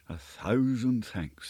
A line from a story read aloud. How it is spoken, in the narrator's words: I murmured